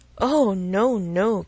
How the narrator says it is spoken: cried Emma, laughing as carelessly as she could

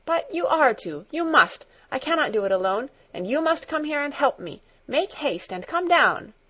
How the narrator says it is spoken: she called again, in an urgent voice

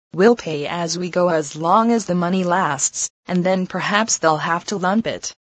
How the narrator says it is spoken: Miss Lydia would calmly say

